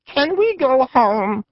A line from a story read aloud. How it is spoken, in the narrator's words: whined